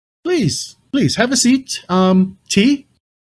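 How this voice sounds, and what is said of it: Attempted clipped proper British accent. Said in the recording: “I can't do a British accent to save my life, but he is speaking with a very clipped British, proper British accent.”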